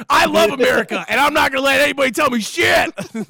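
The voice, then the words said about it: Yelling loudly. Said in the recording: “my neighbors are probably confused as to why I'm yelling”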